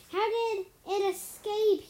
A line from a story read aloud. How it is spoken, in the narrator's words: He yelled at his nervous soldier